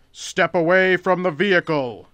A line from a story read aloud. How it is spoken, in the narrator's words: Red said, attempting to make his voice boom as much as possible